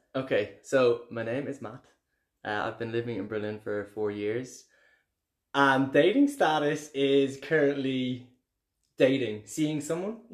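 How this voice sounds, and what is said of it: Irish (Dublin) accent. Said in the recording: “what sexy accent is this coming out of your mouth? ... I'm from Dublin ... People love our accent ... having an Irish accent”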